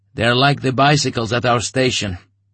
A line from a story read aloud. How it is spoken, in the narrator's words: he answered after a pause in a dull, spellbound voice